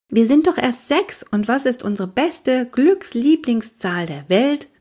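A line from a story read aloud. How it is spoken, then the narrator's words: Plain. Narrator (German): fragte ich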